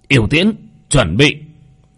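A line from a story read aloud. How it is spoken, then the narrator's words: Demon general's loud command. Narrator (Vietnamese): Yêu tướng quát to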